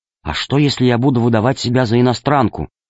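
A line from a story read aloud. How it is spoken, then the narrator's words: Whispered question. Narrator (Russian): Она наклонилась к сумке и спросила археолога шепотом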